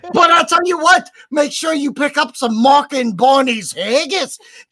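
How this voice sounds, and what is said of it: Put-on accent. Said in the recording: “I don't even know what fucking accent I got right now... I know what accent you're doing”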